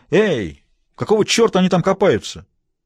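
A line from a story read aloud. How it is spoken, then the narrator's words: Self-pitying shout. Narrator (Russian): крикнул в пространство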